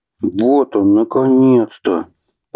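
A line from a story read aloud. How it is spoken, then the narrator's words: Breathless, almost jubilant. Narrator (Russian): Почти с ликованием выдохнул Атхи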